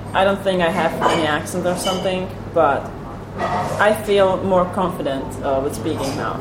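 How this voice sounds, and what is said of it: Non-native English, American-leaning accent. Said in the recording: “your accent goes beyond... the Atlantic Ocean... it's more American English to me than British English”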